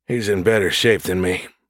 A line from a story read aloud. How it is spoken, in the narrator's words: Gus said in an exhausted voice